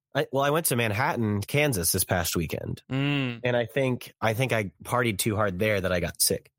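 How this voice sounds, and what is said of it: Scratchy, slightly sick-sounding voice. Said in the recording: “my voice is kind of scratchy ... I've just been kind of feeling under the weather this week”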